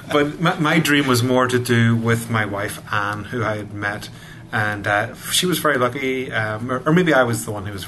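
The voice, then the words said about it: Northern Irish accent. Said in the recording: “you have an accent of some sort ... I'm originally from Northern Ireland”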